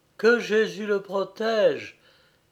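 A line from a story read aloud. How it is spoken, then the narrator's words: Trembling exclamation. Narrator (French): s'écria la jeune fille en tremblant, comme si elle avait eu la fièvre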